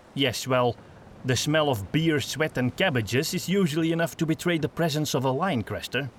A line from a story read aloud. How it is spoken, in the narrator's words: Gustav grumbled